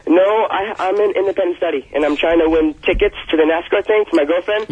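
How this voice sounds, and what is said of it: Young-sounding voice. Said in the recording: “You sound so young.”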